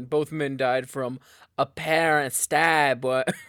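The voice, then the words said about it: Attempted Boston accent. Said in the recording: “you got to do a Boston accent ... That's not very Boston. ... That was like JFK, but that's close.”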